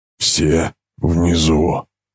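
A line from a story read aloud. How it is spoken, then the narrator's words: Gasp with bloody froth. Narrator (Russian): выдохнул вместе с кровавой пеной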